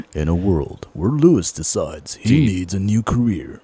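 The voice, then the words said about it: Movie trailer announcer voice. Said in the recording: “Be like that guy, the movie guy, the one that does like all the previews.”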